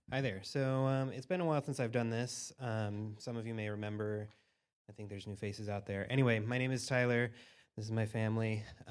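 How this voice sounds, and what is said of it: Nervous, very fast speech. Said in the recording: “you can tell I'm nervous because I'm talking really fast”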